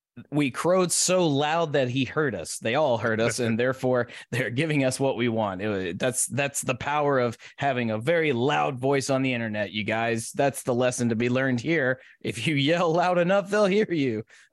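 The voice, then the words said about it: Sarcastic delivery. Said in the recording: “Please understand that I'm being sarcastic.”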